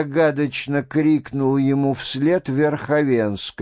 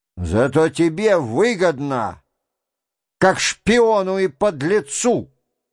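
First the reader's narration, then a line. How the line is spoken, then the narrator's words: Shouting. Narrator (Russian): прокричал ему в дверях Шатов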